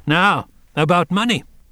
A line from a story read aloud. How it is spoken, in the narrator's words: said the woman sharply